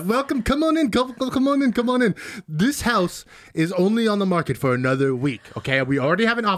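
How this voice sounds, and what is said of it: New Mexican accent. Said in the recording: “Is that a New Mexican accent? ... It is.”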